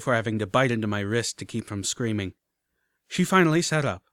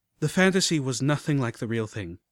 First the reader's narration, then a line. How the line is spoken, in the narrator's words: I sighed